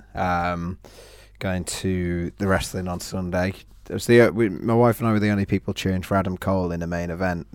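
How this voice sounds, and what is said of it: Slightly lost, hoarse voice. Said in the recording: “I've lost my voice a little bit.”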